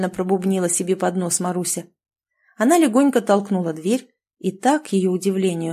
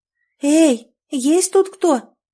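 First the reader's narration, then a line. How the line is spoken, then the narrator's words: Thin little voice calling. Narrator (Russian): тонким голоском позвала Маруся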